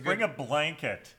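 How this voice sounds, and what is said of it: Mimics an elderly complaining fan. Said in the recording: “That's a good impression ... of the age of most Lions fans”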